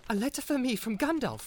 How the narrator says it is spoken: cried Frodo

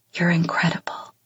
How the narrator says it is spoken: he whispers

